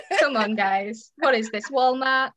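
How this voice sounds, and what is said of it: Put-on American accent. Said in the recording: “I like how you did like an English, like American accent.”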